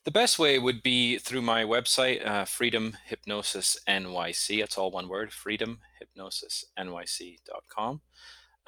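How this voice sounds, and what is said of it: Noticeable regional accent. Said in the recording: “my accent sometimes makes it sound different”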